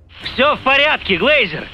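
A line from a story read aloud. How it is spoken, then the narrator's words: Deafeningly loud shout. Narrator (Russian): крикнул он и сам чуть не оглох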